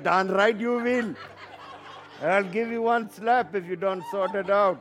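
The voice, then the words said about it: Put-on accent. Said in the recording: “That's my accents. I'm doing my accents.”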